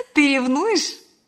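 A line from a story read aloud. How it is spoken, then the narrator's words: Laughing. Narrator (Russian): смеясь добавила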